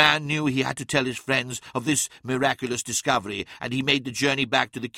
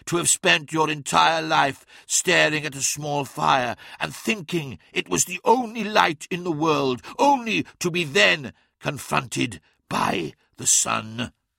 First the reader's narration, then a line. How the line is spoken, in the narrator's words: asked Magnus, his voice racked with emotion